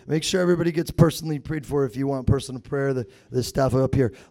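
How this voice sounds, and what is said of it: Hoarse, strained voice. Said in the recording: “I lost my voice”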